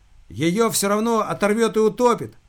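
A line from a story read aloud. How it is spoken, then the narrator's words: Shout. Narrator (Russian): прокричала Алиса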